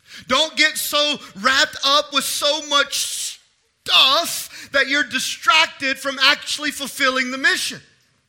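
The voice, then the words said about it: Loud, yelling sermon delivery. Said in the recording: “I'm not yelling at you, I'm yelling at me, and it's just coming out at you.”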